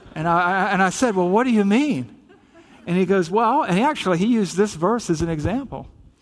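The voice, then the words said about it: Southern US accent. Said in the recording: “I'm from the South, right? You probably picked up the accent here and there.”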